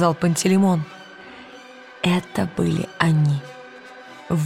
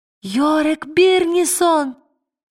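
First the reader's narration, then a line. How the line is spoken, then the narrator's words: Ecstatic joyful shout. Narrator (Russian): закричала Лира, не помня себя от радости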